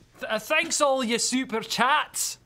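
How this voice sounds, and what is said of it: Put-on Scottish accent. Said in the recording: “say thanks to all the SC in a Scottish accent ... That wasn't bad.”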